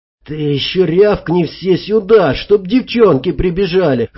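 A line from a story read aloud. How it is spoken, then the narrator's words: Hoarse. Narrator (Russian): хрипло сказал я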